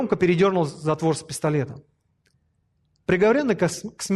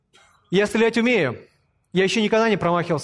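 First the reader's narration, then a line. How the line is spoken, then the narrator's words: Said loudly. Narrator (Russian): громко сказал генерал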